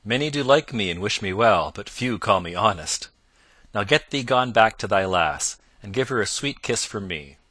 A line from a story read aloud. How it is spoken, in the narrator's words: quoth Robin, laughing loudly